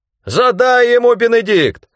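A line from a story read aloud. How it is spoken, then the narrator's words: Shouting. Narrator (Russian): закричал Рэндом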